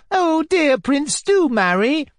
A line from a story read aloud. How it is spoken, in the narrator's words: chirped another